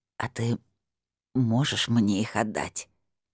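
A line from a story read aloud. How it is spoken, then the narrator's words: Old woman mumbling toothlessly. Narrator (Russian): прошамкала бабуля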